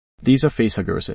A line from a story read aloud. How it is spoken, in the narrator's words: he says